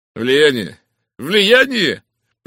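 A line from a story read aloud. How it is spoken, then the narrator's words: Contemptuous snort, repeated. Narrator (Russian): презрительно фыркнув, дважды повторил доктор Грейнджер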